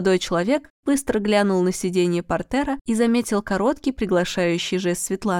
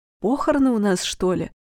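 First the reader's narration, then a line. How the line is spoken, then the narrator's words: Whispered question. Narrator (Russian): шепотом спросил он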